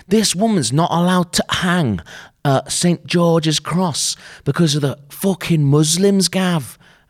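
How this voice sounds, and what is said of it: Poor put-on regional accent. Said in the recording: “That's not a good accent”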